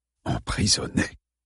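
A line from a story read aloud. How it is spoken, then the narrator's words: Breathless repetition. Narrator (French): répéta James, le souffle coupé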